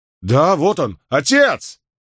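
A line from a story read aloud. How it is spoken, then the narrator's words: Shout. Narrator (Russian): крикнул Ефрем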